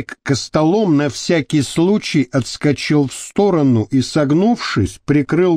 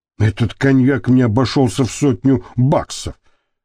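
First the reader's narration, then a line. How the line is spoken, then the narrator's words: Displeased grumble. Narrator (Russian): недовольно проворчал он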